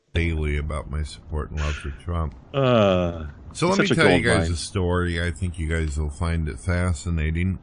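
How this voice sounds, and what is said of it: Bored, flat monotone voice. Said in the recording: “in the most bored voice possible ... he's only got one tone of voice”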